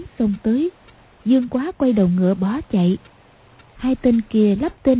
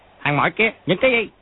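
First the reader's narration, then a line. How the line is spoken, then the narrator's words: Soldiers barking. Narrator (Vietnamese): Hai tên lính quát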